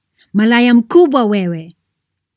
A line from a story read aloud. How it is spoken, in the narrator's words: she is screaming and shouting